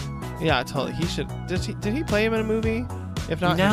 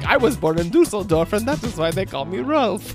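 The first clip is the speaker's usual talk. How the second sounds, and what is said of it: Comical stereotypical German accent. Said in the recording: “it's like almost like a comical take ... it's like stereotypical German accent.”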